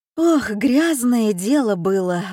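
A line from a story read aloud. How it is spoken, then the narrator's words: Sighing. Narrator (Russian): вздохнула Серафима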